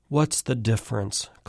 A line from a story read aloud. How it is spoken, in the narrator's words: Claire murmurs